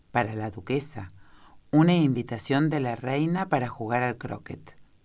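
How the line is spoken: Solemn tone. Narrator (Spanish): El lacayo pez diciendo con tono solemne

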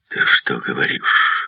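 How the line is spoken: Exclaimed. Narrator (Russian): воскликнул Хардинджер

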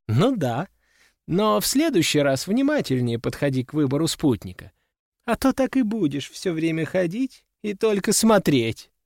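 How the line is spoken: Laughing. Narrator (Russian): рассмеялись те

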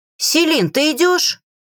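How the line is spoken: Shouted from outside. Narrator (Russian): крикнула с улицы Самия

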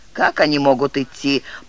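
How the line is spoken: Muttering beggar chief. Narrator (Russian): пробурчал главарь гильдии нищих

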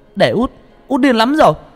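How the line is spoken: Angry loud shout. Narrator (Vietnamese): Tôi tức giận hét lớn

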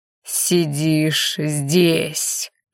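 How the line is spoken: Furious growl. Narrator (Russian): прорычал взбешенный Харен

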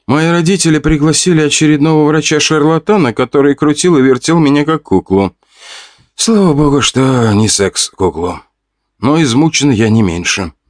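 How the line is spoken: Moaning. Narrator (Russian): простонала Вика

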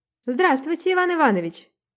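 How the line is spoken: Cheerful, cheeky shout. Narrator (Russian): крикнула весело и развязно

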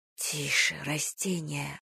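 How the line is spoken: Whisper. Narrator (Russian): прошептала я

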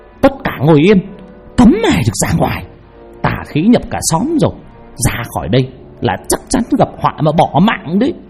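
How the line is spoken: Shrill shouting old woman. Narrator (Vietnamese): Bà quát lên choa choạ

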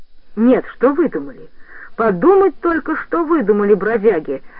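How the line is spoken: Angry exclamation. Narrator (Russian): воскликнул гневно

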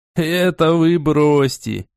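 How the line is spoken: Laughing. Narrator (Russian): рассмеялся

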